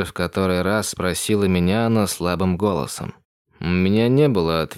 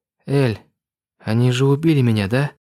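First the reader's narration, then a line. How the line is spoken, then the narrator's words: Trembling breathless voice. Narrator (Russian): Выдохнула она дрожащим голосом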